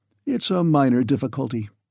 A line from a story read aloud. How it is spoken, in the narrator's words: said Burbank calmly